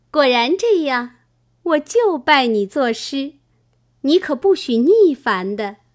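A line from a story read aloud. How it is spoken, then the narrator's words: Laughing. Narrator (Chinese): 香菱笑道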